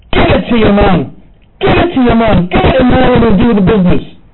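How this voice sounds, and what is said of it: Screamed fake Irish brogue. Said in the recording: “I was screaming in a pseudo-Irish brogue”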